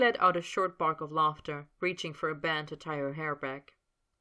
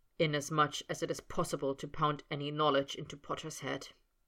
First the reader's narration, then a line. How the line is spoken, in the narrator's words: he murmured, distracted